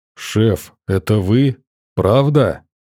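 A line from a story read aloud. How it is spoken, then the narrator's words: Muffled voice. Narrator (Russian): Его голос из-под шкафа звучал глухо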